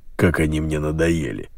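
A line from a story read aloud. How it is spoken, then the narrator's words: Grumbling. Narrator (Russian): проворчал полковник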